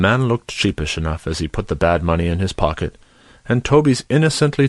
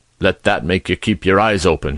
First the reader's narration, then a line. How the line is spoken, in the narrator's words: growled out sulkily